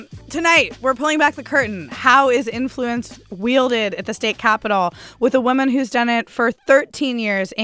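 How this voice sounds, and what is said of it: Slightly hoarse, losing voice. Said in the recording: “losing your voice? ... I am a little bit. I did some karaoke tonight.”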